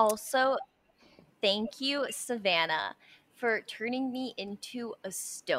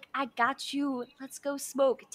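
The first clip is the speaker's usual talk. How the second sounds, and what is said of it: Sensual imitation of a friend's voice. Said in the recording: “your imitation of my voice. It makes me sound so sensual.”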